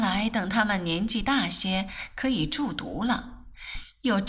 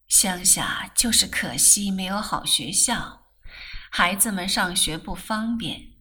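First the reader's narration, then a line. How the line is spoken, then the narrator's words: Long sigh. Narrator (Chinese): 说着又长叹一声，又道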